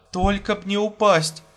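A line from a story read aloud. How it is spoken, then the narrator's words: Pleading. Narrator (Russian): взмолилась она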